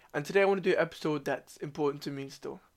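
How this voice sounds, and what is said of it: Sick, weird-sounding voice. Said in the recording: “I'm ill ... My voice might sound a bit weird ... If I cough, forgive me.”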